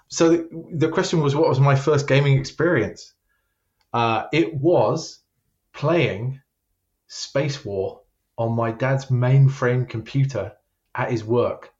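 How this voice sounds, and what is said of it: British accent, South Croydon. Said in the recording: “you've got that British accent ... I was in England for the first 30 years of my life, and my accent is just not going to go away ... I was born in South Croydon”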